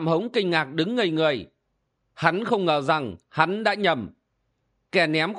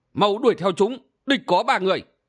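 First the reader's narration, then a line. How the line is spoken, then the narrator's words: Sharp shrill command. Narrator (Vietnamese): câu hồn bàng chủ đã cất giọng lanh lằng quát bảo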